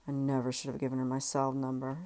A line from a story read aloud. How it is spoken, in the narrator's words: she mumbled